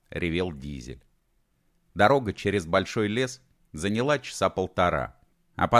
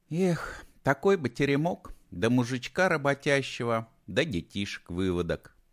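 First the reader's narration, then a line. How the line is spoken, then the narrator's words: Dreamy sigh. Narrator (Russian): мечтательно вздохнула Талка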